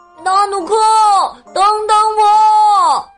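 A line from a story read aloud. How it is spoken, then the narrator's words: Shouting from far behind. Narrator (Chinese): 基努被远远的落在后边，只好对纳努克喊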